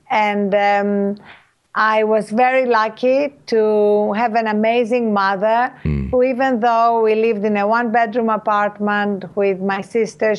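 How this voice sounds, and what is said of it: Greek accent. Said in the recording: “as you can tell from my accent, I wasn't born in this country. I was born in Greece”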